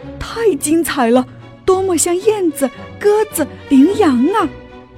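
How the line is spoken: Judges shouting in admiration. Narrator (Chinese): 评审委员们大喊

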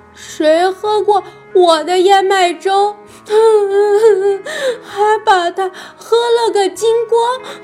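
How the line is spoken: Baby bear crying. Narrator (Chinese): 熊宝宝哭着

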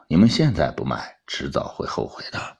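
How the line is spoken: Sighing, resigned. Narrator (Chinese): 王达忍不住叹了口气，摇头道

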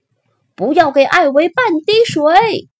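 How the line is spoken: Vengeful villagers shouting. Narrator (Chinese): 村民们很想报复艾维，他们大叫

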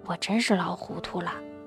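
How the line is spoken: Muttering. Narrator (Chinese): 爷爷喃喃一句

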